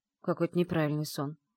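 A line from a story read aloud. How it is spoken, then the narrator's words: Muttered. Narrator (Russian): пробурчала я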